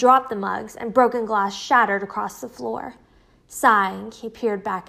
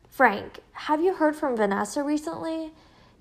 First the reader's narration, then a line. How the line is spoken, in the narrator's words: He started mumbling again